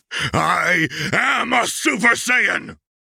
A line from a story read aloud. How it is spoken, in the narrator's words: Vegeta roared with all his might as pure rage exploded out of him